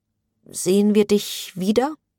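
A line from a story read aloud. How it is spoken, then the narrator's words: Mother's strained question. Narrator (German): ihre Mutter mit gepresster Stimme fragte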